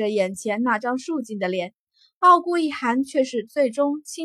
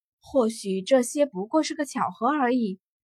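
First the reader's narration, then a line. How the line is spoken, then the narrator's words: Soft sigh. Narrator (Chinese): 他轻叹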